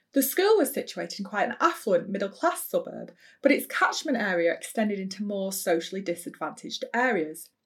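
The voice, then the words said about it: Bolton northwest English accent. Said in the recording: “The school was in Bolton, a northwest English town, and if you're wondering what a Bolton accent sounds like, you've been listening to one.”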